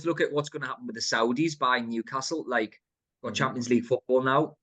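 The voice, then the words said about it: Northeast England accent. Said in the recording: “judging by the accent, you grew up there anyway”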